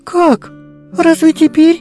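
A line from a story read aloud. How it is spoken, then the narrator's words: Slightly agitated question. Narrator (Russian): несколько взволнованно спросила Шурочка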